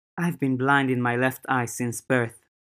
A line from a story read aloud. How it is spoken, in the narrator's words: the teenager said, her voice soft and sad